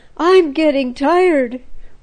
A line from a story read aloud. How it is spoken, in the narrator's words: one girl near Esther gasped